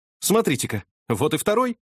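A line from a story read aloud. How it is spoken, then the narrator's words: Astonished exclamation. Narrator (Russian): воскликнул я в изумлении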